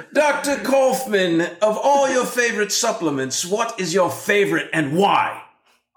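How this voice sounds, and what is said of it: Put-on English accent. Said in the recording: “I'm going to talk like to you in an English accent”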